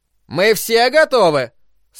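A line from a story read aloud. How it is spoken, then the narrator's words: Overly loud question. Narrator (Russian): спросил Нортон слишком громким голосом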